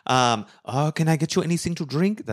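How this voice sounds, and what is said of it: Put-on French accent. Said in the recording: “That's my French accent, my French barmaid accent.”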